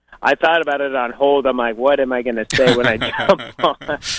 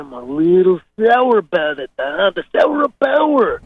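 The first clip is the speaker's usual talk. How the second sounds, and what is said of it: Macho Man Randy Savage impression. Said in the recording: “his wonderful Macho Man impression”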